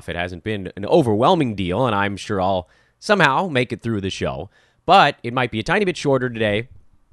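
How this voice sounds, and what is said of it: Hoarse, strained voice. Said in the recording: “You can probably hear it in my voice. Things are a little bit beaten up here. Some kind of weird laryngitis”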